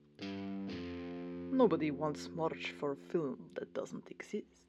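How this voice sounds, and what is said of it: Heavy Russian accent. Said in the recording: “replied a heavy Russian accent”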